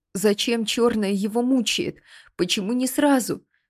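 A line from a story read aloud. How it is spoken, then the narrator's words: Sobbing. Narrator (Russian): всхлипывала Ниала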